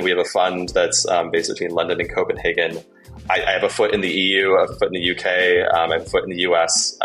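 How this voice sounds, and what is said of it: American English accent. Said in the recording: “I don't know if you can tell by my accent, I'm American”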